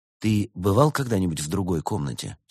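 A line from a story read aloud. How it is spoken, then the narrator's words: Plain question. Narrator (Russian): спросил он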